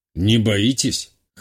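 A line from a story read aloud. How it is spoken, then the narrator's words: Wry snort. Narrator (Russian): хмыкнул промышленник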